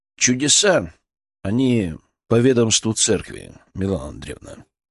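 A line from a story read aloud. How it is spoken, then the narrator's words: Even-toned reply. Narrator (Russian): ответил ровным тоном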